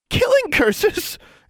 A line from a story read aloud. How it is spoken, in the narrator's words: Anna squealed in horror